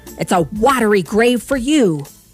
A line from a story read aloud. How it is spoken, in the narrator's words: shouted